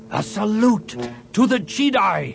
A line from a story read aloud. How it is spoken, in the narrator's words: he shouted